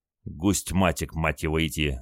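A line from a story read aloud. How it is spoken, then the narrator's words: Pained moan. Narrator (Russian): звезданувшись головой о борт, простонал Костя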